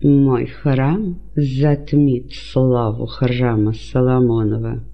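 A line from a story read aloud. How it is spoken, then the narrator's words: Ironic, through gritted teeth. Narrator (Russian): со скрытой иронией процедил сквозь зубы Ирод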